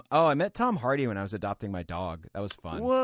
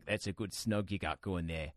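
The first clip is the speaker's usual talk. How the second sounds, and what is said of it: Imitates another person's weird accent. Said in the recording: “he sounded exactly like that. I don't know why he spoke with such a weird accent in that moment”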